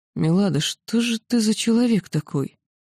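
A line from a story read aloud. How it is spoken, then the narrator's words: Ancient one, muffled voice. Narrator (Russian): древний глухо произнес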